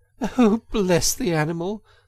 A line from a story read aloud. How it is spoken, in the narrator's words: said the girl, laughing